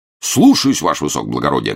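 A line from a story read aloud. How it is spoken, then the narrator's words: Barked. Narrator (Russian): гаркнул рыжеусый полицейский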